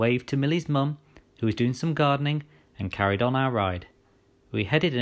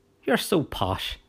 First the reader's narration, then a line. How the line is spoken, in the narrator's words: she laughed